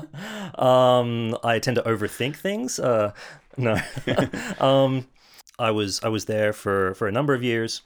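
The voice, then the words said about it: Distinctive, pleasant regional accent. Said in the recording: “this accent, this, this beautiful accent.”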